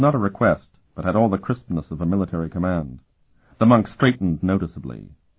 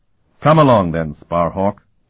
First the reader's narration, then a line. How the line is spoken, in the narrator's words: the abbot boomed